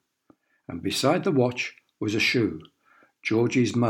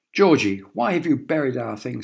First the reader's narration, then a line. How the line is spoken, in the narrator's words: He shouted